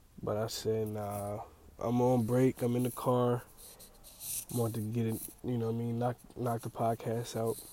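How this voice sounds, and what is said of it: Raspy, stuffy-nosed voice. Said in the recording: “My voice sounds kind of raspy ... My nose is all stuffy”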